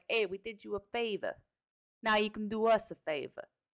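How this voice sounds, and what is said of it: Bad put-on Italian accent. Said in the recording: “My Italian accent's horrible.”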